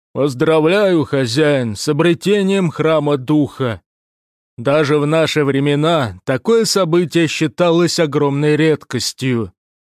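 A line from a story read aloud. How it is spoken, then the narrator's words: Deep bass voice. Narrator (Russian): пробасил Плат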